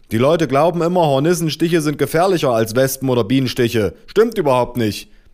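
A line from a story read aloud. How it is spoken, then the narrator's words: Man roaring. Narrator (German): brüllte der Mann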